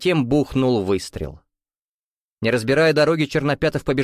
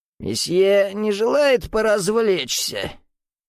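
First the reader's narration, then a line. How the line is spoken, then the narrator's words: Hoarse, smoky voice. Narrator (Russian): хриплым, прокуренным голосом произнесла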